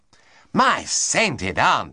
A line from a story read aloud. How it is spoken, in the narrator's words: he cried